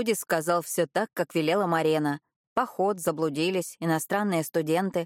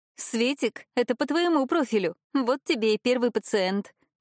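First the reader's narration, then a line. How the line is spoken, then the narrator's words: Short laugh. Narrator (Russian): хохотнула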